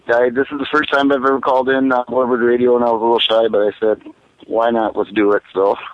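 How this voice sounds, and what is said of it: Wisconsin accent. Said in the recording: “we like to occasionally get the Wisconsin accent”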